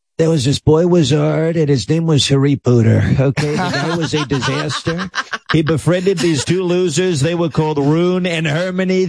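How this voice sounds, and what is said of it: Donald Trump impression. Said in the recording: “doing a Trump impression ... mispronounce all the main characters' names and all the key words”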